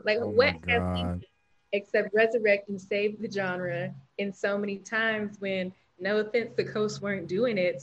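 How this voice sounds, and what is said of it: Southern US accent, stronger than usual. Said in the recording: “my accent just came out more because y'all want to go and be talking mess about the South”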